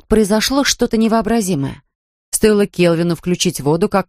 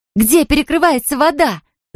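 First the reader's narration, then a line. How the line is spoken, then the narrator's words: Shrieking. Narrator (Russian): завизжала Анфиса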